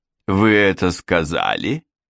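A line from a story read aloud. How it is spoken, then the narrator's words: Hearty laughing exclamation. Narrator (Russian): воскликнул король, смеясь от всей души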